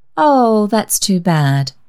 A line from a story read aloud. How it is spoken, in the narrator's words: said Mrs